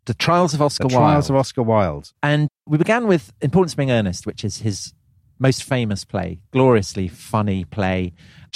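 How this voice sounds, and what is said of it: Affected, effete English accent. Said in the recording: “With your affected ... accent. Indeed, effete tones.”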